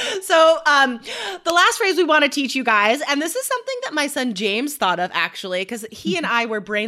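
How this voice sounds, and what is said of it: Usual voice. Nothing is said of it.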